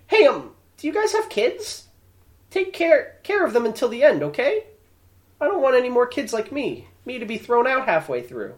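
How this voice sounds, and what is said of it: Bad English-dub anime girl voice. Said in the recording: “That's not a very good anime girl voice I did... It just kind of sounded generically bad. English dub.”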